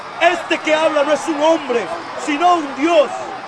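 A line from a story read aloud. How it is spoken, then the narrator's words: Crowd shouting. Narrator (Spanish): La gente comenzó a gritar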